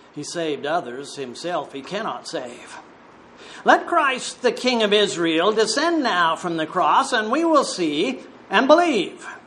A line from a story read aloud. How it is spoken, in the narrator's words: the chief priests, mocking, said among themselves with the scribes